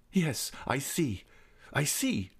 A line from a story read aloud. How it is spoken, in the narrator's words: cried the Viscount